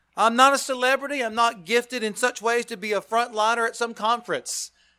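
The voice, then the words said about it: Non-native English accent. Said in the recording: “I struggle with English as it is. Have you heard my accent?... Terry was teasing me about my accent”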